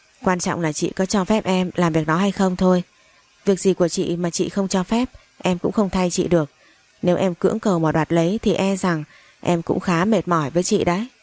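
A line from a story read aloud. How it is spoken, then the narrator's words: Cold smiling reply. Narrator (Vietnamese): Tôi mỉm cười lạnh lùng rồi trả lời nó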